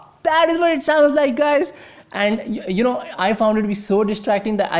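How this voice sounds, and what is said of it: Usual voice. Nothing is said of it.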